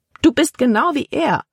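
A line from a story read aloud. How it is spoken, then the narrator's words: Exclaimed. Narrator (German): rief Libby aus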